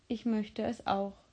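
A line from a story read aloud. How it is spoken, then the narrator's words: Subdued voice. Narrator (German): sagte Philipp mit verhaltener Stimme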